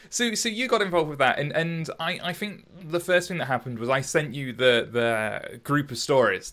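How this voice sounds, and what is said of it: Strong accent, unclear enunciation. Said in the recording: “I'm not very good at enunciating ... it's just my awful accent.”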